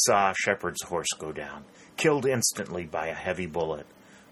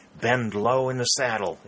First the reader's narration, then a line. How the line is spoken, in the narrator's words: exclaimed a sergeant